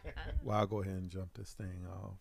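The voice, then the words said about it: Radio DJ style voice. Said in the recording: “got the DJ voice”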